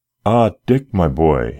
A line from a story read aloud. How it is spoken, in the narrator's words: he exclaimed joyfully